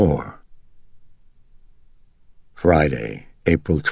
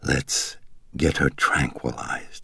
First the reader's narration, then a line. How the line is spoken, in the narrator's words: he whispered